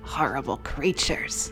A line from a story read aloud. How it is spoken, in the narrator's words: I muttered